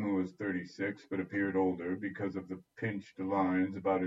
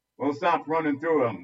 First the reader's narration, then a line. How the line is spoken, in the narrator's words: snapped